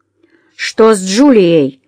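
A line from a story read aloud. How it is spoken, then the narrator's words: Rude demand. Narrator (Russian): грубо потребовал Гарри ответа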